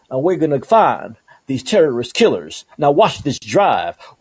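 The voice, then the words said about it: Imitates another person's Texan accent. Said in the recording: “this Texan accent”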